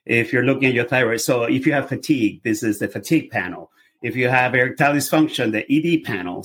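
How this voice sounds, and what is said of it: Venezuelan-accented English. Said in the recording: “by my accent, you can hear I'm a foreigner. I'm from Venezuela.”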